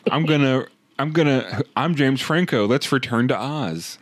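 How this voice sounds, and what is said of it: Imitates another person's voice. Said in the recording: “my James Franco impression”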